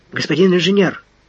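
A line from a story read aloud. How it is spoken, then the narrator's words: Excited address. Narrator (Russian): взволнованно обратился к Фандорину унтер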